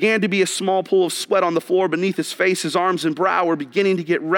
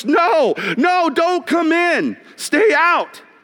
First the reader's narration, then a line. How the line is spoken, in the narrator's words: all the students yelled with one voice